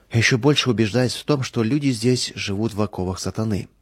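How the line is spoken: Regretful sigh. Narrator (Russian): с сожалением вздохнул Михаил

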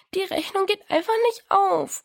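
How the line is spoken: Sobbing. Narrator (German): schluchzte Diana

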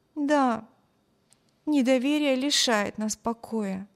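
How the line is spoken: Sighing. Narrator (Russian): вздохнула Эми

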